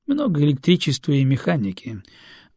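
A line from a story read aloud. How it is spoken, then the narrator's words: Captain sighing. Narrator (Russian): вздохнул капитан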